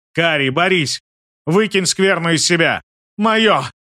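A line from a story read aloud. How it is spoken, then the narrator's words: Barking, shuddering girl. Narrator (Russian): Рявкнула девушка, содрогаясь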